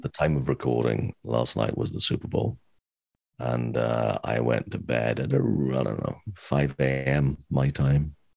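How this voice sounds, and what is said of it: Slightly raspy voice. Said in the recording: “my voice sounds a little more raspy than usual”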